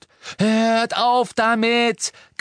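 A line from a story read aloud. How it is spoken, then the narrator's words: Shriek. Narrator (German): kreischte Hermine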